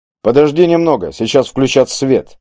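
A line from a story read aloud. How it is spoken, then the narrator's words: Calm reply. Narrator (Russian): все так же спокойно ответил голос из пятна света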